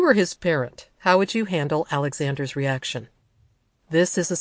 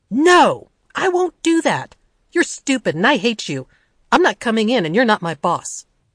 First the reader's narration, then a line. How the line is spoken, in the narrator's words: The boy shouts at her